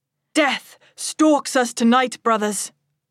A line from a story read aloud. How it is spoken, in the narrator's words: my prince shouts